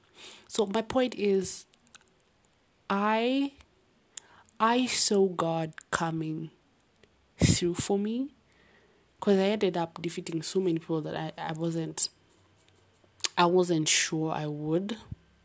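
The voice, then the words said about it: Speaks with a noticeable accent. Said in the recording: “I'm sorry for the accent, really.”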